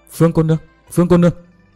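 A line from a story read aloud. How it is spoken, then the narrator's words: Shy trembling voice. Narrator (Vietnamese): với vẻ mặt đầy e thẹn, nói với giọng run run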